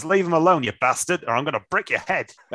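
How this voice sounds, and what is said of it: Put-on Australian accent, not convincing. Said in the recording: “let's try and do it in an Australian accent. It's not going to go well.”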